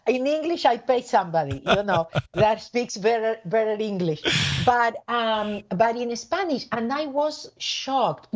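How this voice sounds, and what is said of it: Speaks English with a foreign accent. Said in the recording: “not everybody likes my accent ... So in English, I love it.”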